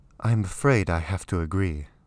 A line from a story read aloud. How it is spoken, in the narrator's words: Alextra said with a sigh